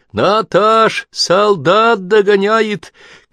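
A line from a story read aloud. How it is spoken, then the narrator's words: Women shouting. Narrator (Russian): кричали женщины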